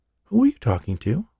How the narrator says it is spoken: she asked

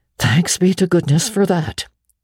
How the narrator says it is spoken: breathed Marilla in devout relief

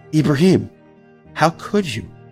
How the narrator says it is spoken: the girl asked him, in the kindest voice imaginable

